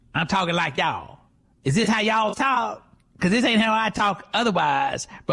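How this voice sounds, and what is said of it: Put-on Black American accent. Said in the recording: “I got a new black accent”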